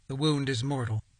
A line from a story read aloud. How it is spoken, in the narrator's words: looked up sadly and said